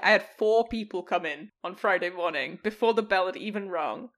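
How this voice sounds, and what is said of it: Noticeable non-local accent. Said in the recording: “oh my God, I love your accent.”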